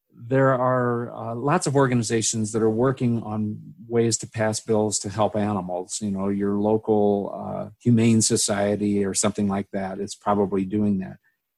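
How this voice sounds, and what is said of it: Hoarse, strained voice. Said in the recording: “my voice is going hoarse.”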